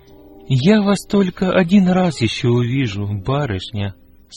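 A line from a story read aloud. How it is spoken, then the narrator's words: Sad. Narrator (Russian): сказал печально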